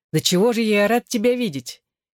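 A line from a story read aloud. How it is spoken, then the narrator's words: Glad exclamation. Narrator (Russian): я воскликнул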